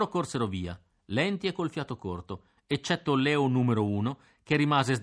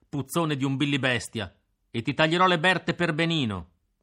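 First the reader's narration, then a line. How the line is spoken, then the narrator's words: Angry shout. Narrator (Italian): gridai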